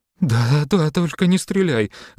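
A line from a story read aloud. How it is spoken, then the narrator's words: Pleading. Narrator (Russian): взмолилась Алочка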